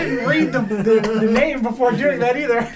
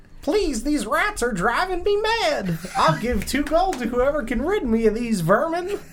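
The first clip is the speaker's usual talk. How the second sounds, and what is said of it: Put-on American Southern accent. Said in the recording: “Got the southern mice... I'm glad I did that voice... that is the south.”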